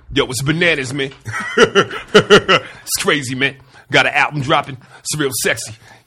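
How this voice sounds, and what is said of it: LL impression. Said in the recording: “You do an LL impression? ... Everybody doesn't do a good one.”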